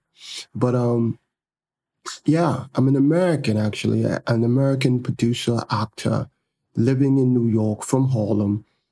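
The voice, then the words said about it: American attempting a British accent. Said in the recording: “I'm attempting to do my whole podcast with a British accent because now I'm studying the accent, the British accent.”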